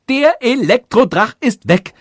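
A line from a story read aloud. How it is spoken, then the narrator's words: Joyful shout. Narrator (German): rief der König freudig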